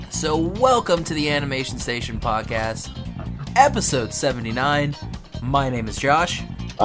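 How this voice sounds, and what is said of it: Scratchy, sick-sounding voice. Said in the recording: “I'm sick. ... Your voice is all scratchy.”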